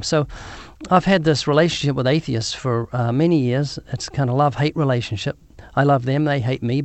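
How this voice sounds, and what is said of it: Southern hemisphere accent. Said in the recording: “I've got a weird accent ... you're from the southern hemisphere, so both of us have southern accents”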